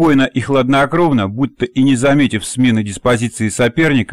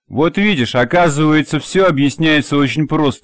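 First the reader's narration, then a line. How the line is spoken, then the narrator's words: Louder guffawing. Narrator (Russian): еще громче захохотал Баас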